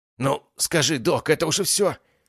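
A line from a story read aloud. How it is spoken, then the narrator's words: Hysterical young man. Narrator (Russian): Истеричным голосом продолжал спрашивать парень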